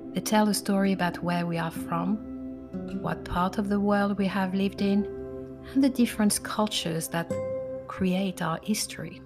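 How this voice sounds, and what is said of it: French-English accent. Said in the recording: “my accent ... Mine is a mix of French and English, due to the fact I'm French and I lived in England for 28 years”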